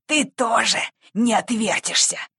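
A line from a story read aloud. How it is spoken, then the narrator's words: Hissing bandit. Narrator (Russian): прошипел один из бандитов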